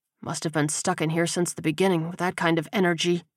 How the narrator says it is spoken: he muttered

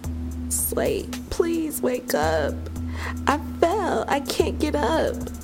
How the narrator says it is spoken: pleaded hysterically

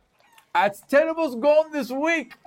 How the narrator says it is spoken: Another shouts from somewhere behind the crowd

